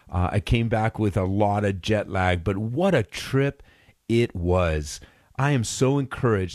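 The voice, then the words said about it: Congested, stuffed-up voice. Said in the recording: “you can probably hear it in my voice. I came back a little sick, a little stuffed up.”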